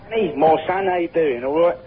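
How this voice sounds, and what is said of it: Put-on Cockney accent. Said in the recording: “don't cockney me up ... That's a very good accent, then. You sounded exactly right.”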